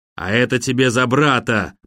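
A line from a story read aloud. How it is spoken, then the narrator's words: Growled. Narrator (Russian): прорычал блондин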